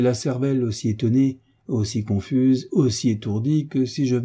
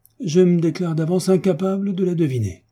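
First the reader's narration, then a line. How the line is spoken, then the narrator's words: Exclaimed. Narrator (French): s'écria le baron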